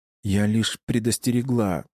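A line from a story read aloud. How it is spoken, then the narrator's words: Moaning in pain. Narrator (Russian): мучаясь от боли, простонала Ада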